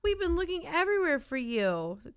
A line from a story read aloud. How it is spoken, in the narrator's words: cried Mom